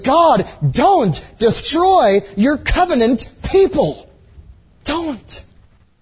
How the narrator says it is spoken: he prayed urgently

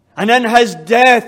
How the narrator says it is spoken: he cries triumphantly

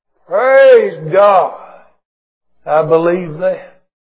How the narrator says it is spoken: the old preacher could not contain his jubilation, and he just bellowed out

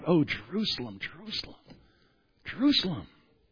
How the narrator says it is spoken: he just cries out

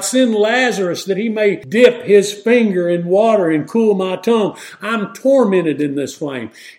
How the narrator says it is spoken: The rich man cried

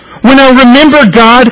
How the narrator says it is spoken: I moan

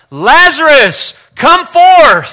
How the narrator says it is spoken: he cried out

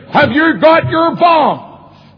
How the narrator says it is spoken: when I was a good piece away, he shouted after me

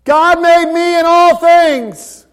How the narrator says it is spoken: 19 other kids yell

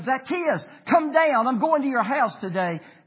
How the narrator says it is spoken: He cried out to him

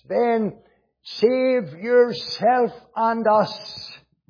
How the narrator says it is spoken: cried the thief on the cross

